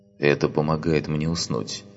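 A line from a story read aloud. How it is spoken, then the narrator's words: Muttered. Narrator (Russian): пробормотал Грейсон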